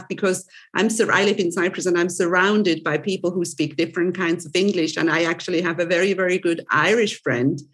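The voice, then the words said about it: Mild mixed Swiss accent. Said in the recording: “accent is mixed because I'm originally from Switzerland ... I, do have a Swiss accent, obviously, obviously, but not as typical as a typical Swiss would have”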